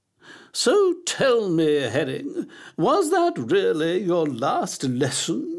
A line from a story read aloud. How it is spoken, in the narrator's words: she asked, her voice bubbling like a pan of thick gloop on a stove